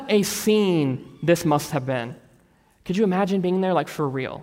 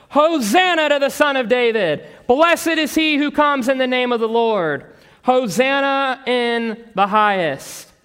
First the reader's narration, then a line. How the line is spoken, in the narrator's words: the crowds going ahead of him and those who followed were shouting